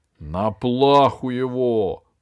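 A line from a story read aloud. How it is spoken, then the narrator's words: Growling king. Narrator (Russian): рычал король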